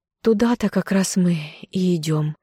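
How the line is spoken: Sighing. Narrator (Russian): Любомира вздохнула

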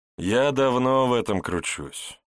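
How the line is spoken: Heavy weary sigh. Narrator (Russian): тяжело вздохнул Шилов, внезапно постарев лет на 10

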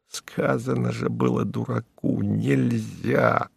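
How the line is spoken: Low undertone. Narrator (Russian): ведьмак проговорил вполголоса

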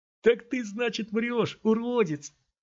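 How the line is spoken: Thin, tense laugh. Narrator (Russian): сказал парень, тонко и напряженно засмеявшись

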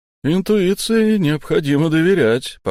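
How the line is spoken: Cheerful. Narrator (Russian): по-прежнему весело произнес

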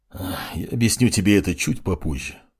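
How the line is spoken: Sighing. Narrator (Russian): вздохнул маг огня

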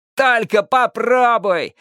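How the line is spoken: Roar. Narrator (Russian): взревел Джонни О

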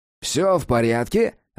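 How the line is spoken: Cheerful question. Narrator (Russian): радостно осведомился

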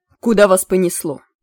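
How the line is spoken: Sharp question. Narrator (Russian): резко спросил Змейк

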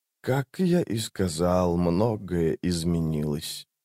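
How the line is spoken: Quiet. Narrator (Russian): тихо сказал Крул

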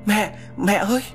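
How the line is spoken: Terrified loud scream. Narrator (Vietnamese): Quá sợ hãi, tôi hét lớn

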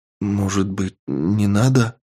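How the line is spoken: Unsteady voice question. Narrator (Russian): спросила она неровным голосом

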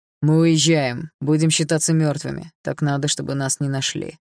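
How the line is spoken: Dry explanation, father. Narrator (Russian): сухо пояснил отец

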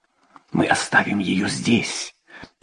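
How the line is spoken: Whisper. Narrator (Russian): прошептала Элен

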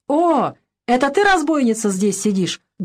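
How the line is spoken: Loud. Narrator (Russian): громко сказал

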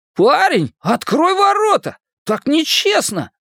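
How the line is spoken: Shouted in disbelief. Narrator (Russian): Не в силах поверить в случившееся, он крикнул

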